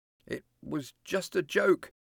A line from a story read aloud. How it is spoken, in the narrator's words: murmured